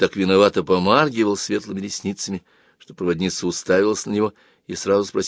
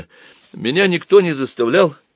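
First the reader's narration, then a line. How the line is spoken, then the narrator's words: Timid babbling. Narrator (Russian): пролепетал Боря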